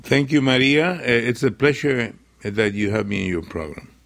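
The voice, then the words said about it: Non-native accented English. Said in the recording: “it's really wonderful to hear you speaking in English... You have a beautiful accent... It's not my mother language”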